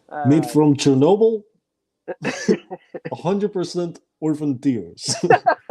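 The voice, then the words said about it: Put-on Russian accent. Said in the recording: “That's pretty good. I like that Russian accent.”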